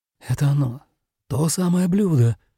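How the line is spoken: Mutter. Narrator (Russian): пробормотал Сакё

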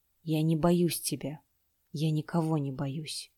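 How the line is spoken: Quiet speech. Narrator (Russian): Чинтянь тихо сказал

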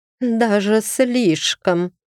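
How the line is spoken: Through gritted teeth. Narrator (Russian): процедила Айсидора, сверля меня ненавидящим взглядом

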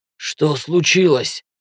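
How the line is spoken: Hoarse rasp. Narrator (Russian): Прохрипел

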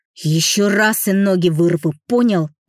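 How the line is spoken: Growl. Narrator (Russian): прорычал Антон

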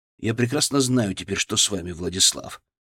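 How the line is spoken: Quiet, icy certainty. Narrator (Russian): сказал я тихо, но с ледяной уверенностью

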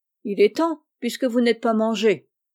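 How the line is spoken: Cold. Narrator (French): fit froidement Frank

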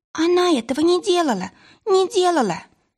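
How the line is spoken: Ultrasonic squeak. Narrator (Russian): запищал Тиин на ультразвуке

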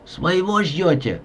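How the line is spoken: Hoarse, sick-sounding question. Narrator (Russian): спросил хриплым, простуженным голосом

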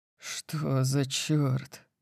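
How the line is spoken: Breathed out. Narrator (Russian): выдохнул

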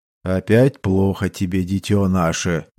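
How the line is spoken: Deep bass question. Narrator (Russian): густым басом спросил инквизитор-дознаватель чёрного герцогства

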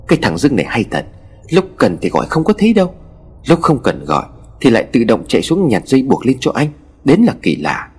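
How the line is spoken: Muttering. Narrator (Vietnamese): Ông Khanh lẩm bẩm

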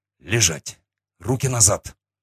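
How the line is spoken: Angry snarl. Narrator (Russian): зло ощерился я

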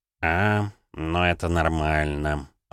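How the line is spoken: Sighing. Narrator (Russian): вздохнул Савелий

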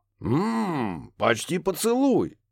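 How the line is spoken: Amused snort. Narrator (Russian): хмыкнул Рафаэль

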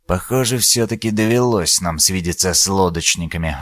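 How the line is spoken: Sighing. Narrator (Russian): вздохнул Дорникус

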